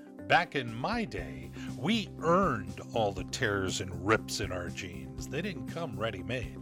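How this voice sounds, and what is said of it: Usual voice. Nothing is said of it.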